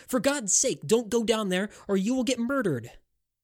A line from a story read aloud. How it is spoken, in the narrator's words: shouted